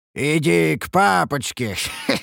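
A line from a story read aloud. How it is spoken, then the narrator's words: Eerie croaking voice. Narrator (Russian): Проговорил я жутким каркающим голосом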